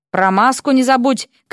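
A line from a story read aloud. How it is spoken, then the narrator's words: Shouted. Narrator (Russian): крикнул Уилл, едва поспевая за ней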